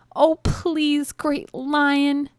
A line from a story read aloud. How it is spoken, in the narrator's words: begged the mouse